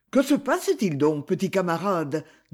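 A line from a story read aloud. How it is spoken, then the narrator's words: Plain. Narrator (French): demanda Brutus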